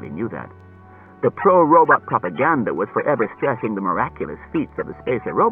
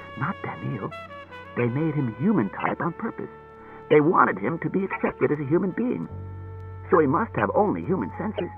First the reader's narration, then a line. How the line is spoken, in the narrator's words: He whispered